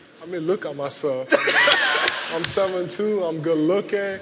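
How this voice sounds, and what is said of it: Cameroonian accent. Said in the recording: “women usually love my accent because I'm from Cameroon in Africa”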